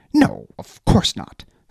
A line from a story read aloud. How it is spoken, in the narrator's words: Stefan snapped, almost too quickly